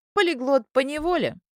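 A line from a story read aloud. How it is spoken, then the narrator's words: Laughing. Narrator (Russian): засмеялась она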